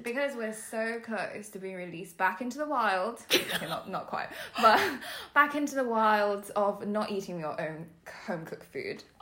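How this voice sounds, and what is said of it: Posh London English accent. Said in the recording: “my really posh accent ... people tell me I sound posh ... I do think you sound posh”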